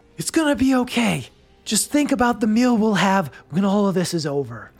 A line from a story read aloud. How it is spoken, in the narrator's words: he's going to yell out